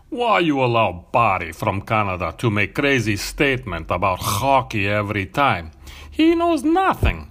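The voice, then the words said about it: Vlad Crouton character voice. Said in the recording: “Ready for Vlad Crouton? He's got some good hockey knowledge”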